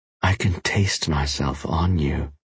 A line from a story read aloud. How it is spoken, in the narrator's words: she whispered